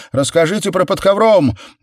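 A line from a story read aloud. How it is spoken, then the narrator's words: Students yelling, whistling. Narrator (Russian): Несколько не в меру рьяных студентов завопили и засвистели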